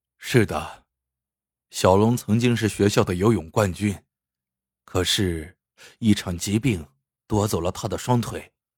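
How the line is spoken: Sighing man. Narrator (Chinese): 中年男子叹了口气说

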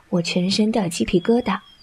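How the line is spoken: Playful, gentle. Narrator (Chinese): 洛风嬉笑不退，声音温柔道

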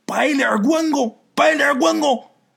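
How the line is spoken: Old people shouting. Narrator (Chinese): 老人就喊

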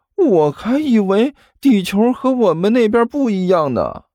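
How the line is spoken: Mournful. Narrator (Chinese): 刘阿八哭丧着脸说道

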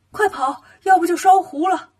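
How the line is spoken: Shouting while running. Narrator (Chinese): 悟空一边跑一边喊

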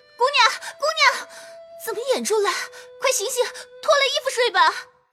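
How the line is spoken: Anxious calling out. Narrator (Chinese): 紫娟叫道

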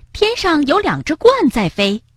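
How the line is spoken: Excited shout. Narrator (Chinese): 蹦蹦兴奋地喊道

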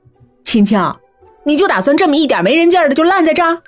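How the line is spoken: Jealous roar. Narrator (Chinese): 肖雪一脸嫉妒的冲我咆哮

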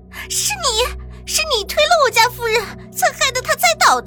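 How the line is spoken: Crying loud shout. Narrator (Chinese): 张菊琴身边的丫鬟一边哭 大声的喊道

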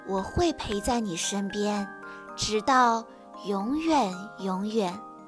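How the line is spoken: Softly. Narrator (Chinese): 妈妈轻声说

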